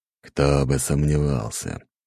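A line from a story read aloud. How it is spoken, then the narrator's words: Grumbling. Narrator (Russian): пробурчал Дориан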